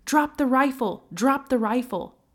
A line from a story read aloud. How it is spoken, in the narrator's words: Murphy crept closer behind her with his gun drawn, until finally he shouted